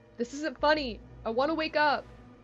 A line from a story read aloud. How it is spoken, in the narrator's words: yelled as the creature got closer and closer